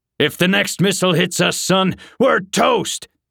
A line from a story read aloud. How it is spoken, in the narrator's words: barked the general